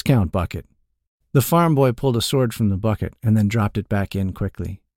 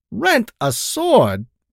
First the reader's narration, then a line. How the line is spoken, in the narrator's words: Boltak shouted